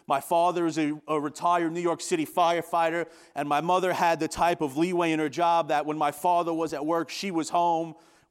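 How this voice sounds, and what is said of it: Long Island New York accent. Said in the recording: “As you could tell by my accent, I'm not from Western New York. I grew up in a small town of 55,000 people on Long Island.”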